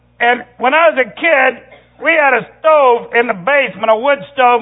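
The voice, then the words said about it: Tennessee Southern accent. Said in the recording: “I was born in Tennessee. I know you can tell by my accent”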